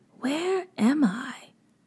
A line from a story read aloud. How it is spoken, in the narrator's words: whispered to herself